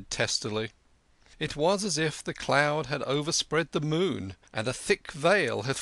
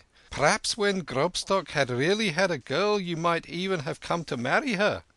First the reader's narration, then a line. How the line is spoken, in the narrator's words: ventured the Tedesco timidly